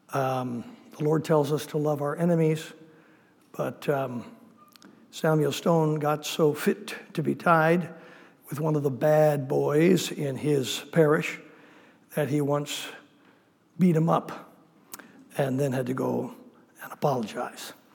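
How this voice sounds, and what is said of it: Voice affected by illness. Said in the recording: “apologize for my voice. ... I've been sick these last few days. ... it does affect the sound of the voice”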